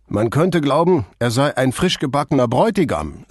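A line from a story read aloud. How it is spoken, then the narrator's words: Cheerful. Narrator (German): sagte Vianello so fröhlich, als sei er bei der Hochzeit dabei gewesen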